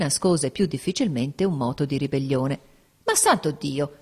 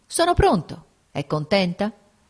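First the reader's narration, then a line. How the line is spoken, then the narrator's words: Sick man, curt after pause. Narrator (Italian): L'infermo tacque un poco, poi riprese con voce breve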